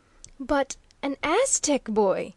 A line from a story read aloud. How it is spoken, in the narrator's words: exclaimed the bewildered savant